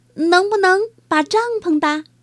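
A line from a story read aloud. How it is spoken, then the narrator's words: Shouting. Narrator (Chinese): 米菲喊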